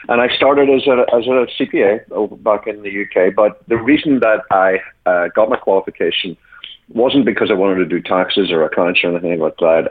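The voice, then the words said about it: Irish accent with a twang. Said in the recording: “The listeners can probably hear from my accent, I'm not quite from these parts. I'm from originally from Ireland ... my accent has decided not to fully relocate. So that's the weird twang”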